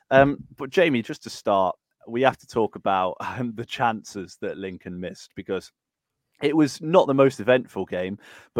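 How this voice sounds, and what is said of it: Croaky voice from sore throat. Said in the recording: “I've got a little bit of a sore throat ... if I sound a little bit croaky”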